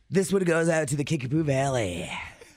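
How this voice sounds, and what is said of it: Radio DJ voice. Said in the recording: “DJ voice”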